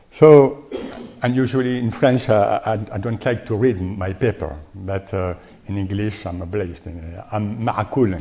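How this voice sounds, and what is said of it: Strong French accent in English. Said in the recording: “my very bad French accent in English”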